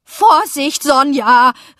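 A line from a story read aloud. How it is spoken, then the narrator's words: Called out. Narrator (German): rief Onkel Schwan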